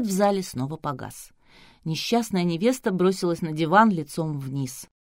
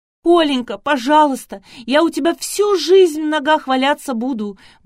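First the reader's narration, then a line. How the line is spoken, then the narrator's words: Desperate wail. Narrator (Russian): взвыла Василиса, вскочив с дивана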